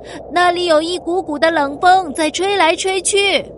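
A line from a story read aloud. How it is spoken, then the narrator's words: Crying out. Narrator (Chinese): 游客们开始哭喊起来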